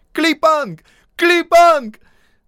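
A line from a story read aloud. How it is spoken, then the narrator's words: Loud swan-like cry. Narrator (Russian): Во весь голос закричал по лебединому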